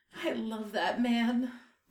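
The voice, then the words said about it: Choked-up, emotional voice. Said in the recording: “sounding a little choked up”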